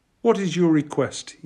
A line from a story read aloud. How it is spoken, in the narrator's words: he asked